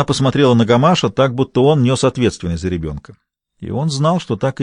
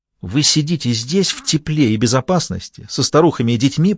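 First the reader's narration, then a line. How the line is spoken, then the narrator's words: Hissed. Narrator (Russian): прошипела миссис Финни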